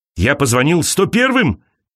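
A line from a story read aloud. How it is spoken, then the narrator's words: Shouting. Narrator (Russian): кричал он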